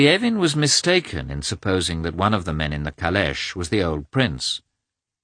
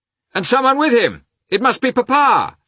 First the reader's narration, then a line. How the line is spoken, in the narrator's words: shouted Levin